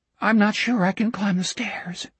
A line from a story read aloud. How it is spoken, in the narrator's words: Richard said, weakly querulous